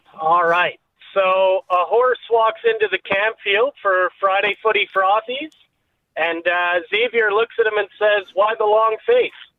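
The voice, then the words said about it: Canadian accent. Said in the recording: “Do I sense an accent? ... Canadian, yeah.”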